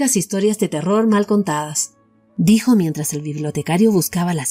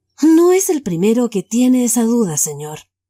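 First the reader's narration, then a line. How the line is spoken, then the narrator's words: Plain. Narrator (Spanish): respondió el bibliotecario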